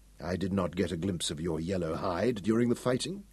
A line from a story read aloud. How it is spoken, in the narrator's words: Hal said quietly